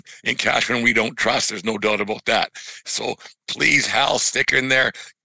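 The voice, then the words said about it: Voice giving out, hoarse. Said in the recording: “my voice is going a little bit”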